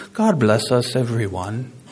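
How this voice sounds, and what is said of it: British accent. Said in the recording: “I put in my notes that needs to be in a British accent”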